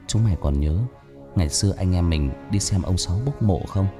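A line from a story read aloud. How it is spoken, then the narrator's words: Sad, lowered voice. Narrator (Vietnamese): Thằng Quân buồn buồn hạ giọng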